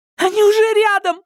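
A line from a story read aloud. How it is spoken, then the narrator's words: Shrieking. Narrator (Russian): завизжала Тереза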